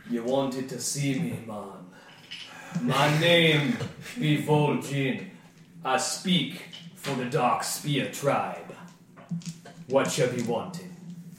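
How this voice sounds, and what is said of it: Character voice with put-on accent. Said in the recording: “Yours is much better than my accent.”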